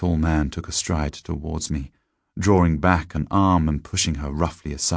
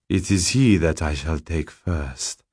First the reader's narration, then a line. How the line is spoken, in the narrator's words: said sibilantly, with a strange accent to his English